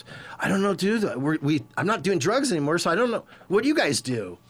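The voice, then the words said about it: Imitates another person's voice. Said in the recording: “that was my impression of Tommy”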